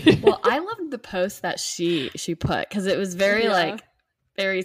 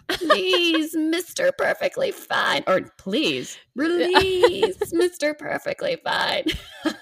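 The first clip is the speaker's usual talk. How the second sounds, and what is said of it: Goblin voice like Gollum. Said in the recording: “in a goblin voice... more from like Lord of the Rings... A perfect impression... Like the My Precious from Lord of the Rings?”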